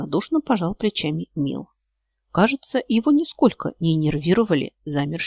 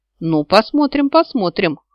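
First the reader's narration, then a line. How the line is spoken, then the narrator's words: Skeptical snort. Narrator (Russian): хмыкнул Нил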